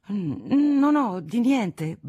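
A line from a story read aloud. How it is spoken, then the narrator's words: Flustered young man stammering. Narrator (Italian): balbettò il giovane, che stava cercando un pretesto alla sua visita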